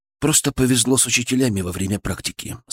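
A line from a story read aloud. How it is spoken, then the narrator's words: Plain. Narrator (Russian): сказал вслух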